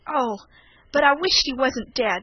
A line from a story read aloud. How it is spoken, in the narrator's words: he cried